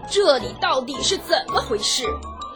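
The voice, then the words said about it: Angry, indignant character voice. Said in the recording (Chinese): “另一个怒气冲冲的声音说”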